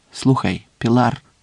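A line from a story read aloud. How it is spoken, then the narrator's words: Quiet. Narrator (Ukrainian): тихо сказав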